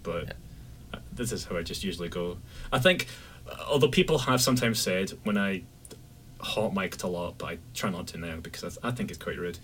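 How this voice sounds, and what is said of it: Mild Scottish accent. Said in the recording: “you are from across the pond, Scotland... Aye, Bonnie Scotland... I don't have a thick accent either”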